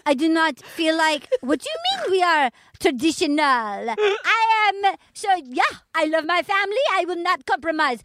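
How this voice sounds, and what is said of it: Put-on slightly Asian accent. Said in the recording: “Can you do the accent? ... It's slightly Asian, which I love.”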